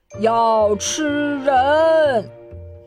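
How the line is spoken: Screaming. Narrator (Chinese): 海滩上的人大声尖叫

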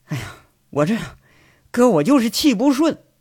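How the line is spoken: Sighing. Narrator (Chinese): 贼六呢，长叹一口气，说着

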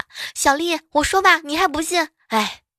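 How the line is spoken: Loud shout. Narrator (Chinese): 闺蜜大声的对老婆喊

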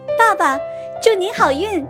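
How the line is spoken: Loud shout. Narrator (Chinese): 贝尔大喊

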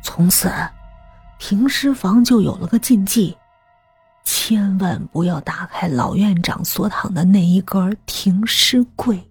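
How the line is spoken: Hushed low voice. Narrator (Chinese): 仿佛接下来的话有魔力， 吕平压低声音

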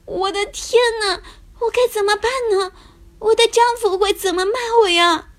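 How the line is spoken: Crying. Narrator (Chinese): 她哭着跟丈夫说

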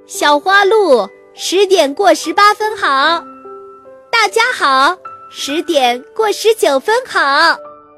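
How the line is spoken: Loud cheerful greeting. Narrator (Chinese): 小河马大声地打起了招呼

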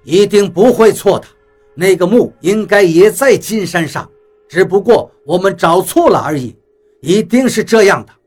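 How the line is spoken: Through gritted teeth. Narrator (Chinese): 他咬牙切齿道

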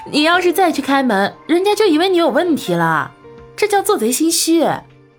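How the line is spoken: Laughing heartily. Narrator (Chinese): 吴春燕笑得花枝乱颤，道

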